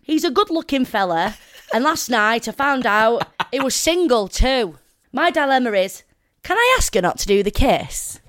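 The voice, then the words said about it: Put-on Preston accent. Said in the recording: “Can you read it in a Preston accent?”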